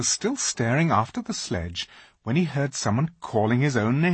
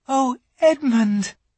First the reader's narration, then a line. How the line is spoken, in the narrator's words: she cried